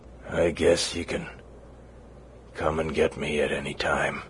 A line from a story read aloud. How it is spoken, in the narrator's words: he mumbled